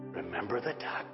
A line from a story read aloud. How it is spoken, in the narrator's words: she whispered in his ear